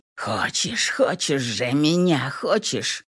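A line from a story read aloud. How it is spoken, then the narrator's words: Angry hoarse murmur. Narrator (Russian): Ронан зло хрипя в самую кожу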